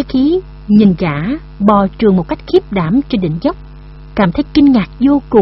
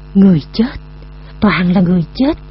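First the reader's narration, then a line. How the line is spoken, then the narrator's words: Trembling voice. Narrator (Vietnamese): giọng nói còn chưa hết run rẩy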